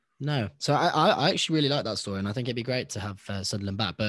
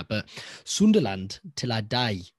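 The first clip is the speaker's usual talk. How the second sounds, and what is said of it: Attempted Sunderland accent. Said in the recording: “Was that a good accent?”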